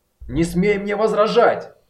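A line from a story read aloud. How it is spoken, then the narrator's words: Shout, then sudden drop. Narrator (Russian): Закричал, затем его голос внезапно упал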